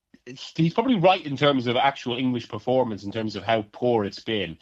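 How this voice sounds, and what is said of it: Speaks with a noticeable accent. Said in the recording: “as you can tell from my accent”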